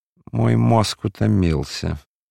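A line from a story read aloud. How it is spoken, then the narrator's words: Tired, sighing. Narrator (Russian): говорил он, устало вздыхая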